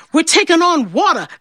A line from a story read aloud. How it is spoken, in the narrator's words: the captain cried